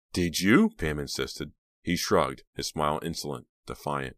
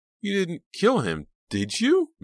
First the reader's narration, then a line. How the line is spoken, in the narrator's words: Mickey asked, his voice frightened and small